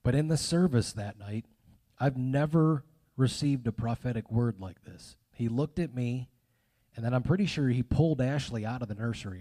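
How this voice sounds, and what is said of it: Strained, fading voice. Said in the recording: “I may be losing my voice a little bit”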